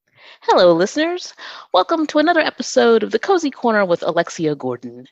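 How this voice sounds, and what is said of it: Polished radio-style speaking voice. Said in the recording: “You have a terrific radio voice.”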